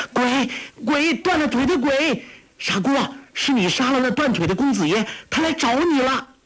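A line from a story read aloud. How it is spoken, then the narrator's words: Shrill scream. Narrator (Chinese): 黄蓉尖声叫道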